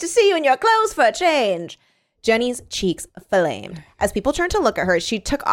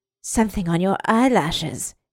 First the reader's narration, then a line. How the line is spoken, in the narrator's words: he whispered